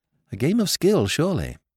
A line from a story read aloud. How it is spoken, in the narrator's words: murmured Jimmy